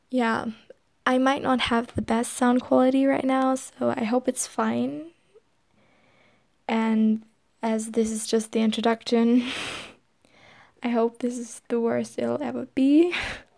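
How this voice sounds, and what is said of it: German-accented English. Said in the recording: “I'm not actually a native English speaker. My first language is German. Maybe you can hear that in the accent”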